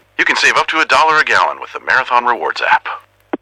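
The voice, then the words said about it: Impression of Max the Bald Eagle. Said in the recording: “do an impression of me ... Max the Bald Eagle”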